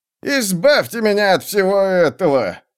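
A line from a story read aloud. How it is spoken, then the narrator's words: Groaning. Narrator (Russian): застонал Раутос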